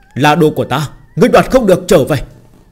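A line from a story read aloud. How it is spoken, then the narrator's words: Thunderous roaring shout. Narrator (Vietnamese): Trong miệng Lữ Phụng Tiên hét lớn, giọng nói quần quận như là sấm rền mang trời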